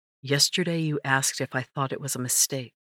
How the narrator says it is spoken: his voice was soft as he asked

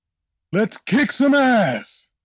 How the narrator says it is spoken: He bellowed

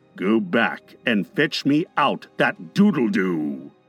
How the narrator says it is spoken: said in his most steely voice

